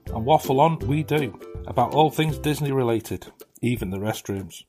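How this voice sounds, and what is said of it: British accent. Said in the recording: “our podcast with a British accent”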